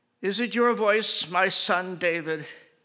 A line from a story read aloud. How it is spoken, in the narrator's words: Saul lifted up his voice and wept